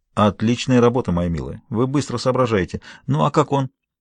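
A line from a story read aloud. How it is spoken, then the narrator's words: Quiet. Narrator (Russian): тихо сказал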